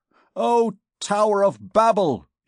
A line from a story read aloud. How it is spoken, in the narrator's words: he exclaimed